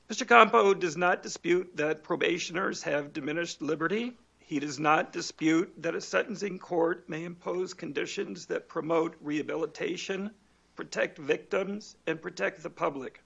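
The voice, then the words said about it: Raspy voice. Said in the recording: “I apologize for my raspy voice this afternoon”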